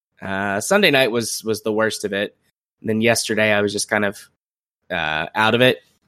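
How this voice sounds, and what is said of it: Scratchy voice from a cold. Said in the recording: “you can hear me in all my scratchy glory... I have a head cold... today I managed to not lose my voice”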